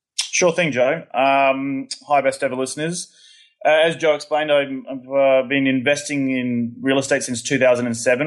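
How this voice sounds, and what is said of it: Australian accent. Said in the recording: “he is originally from Australia, as you will soon find out for yourself when you listen to his accent.”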